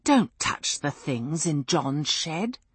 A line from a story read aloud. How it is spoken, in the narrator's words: she grumbled